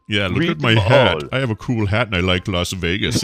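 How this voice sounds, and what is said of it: Imitates another person's voice. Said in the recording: “do a Brian Ibbott ... do that voice. What's that voice?”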